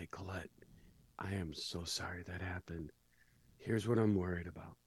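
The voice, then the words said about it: Slightly lowered, quieter voice. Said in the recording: “lower my voice just a teeny bit”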